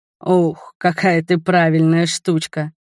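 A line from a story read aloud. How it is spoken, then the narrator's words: Laughing. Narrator (Russian): засмеялся муж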